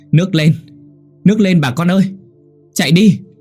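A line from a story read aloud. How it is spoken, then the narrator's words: Panicked shout. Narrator (Vietnamese): có người hét lên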